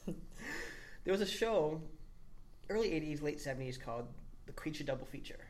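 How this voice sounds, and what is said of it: Slight Boston accent. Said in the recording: “I grew up in Boston, as you might have guessed my accent. I think I have an accent ... Yeah, just a bit.”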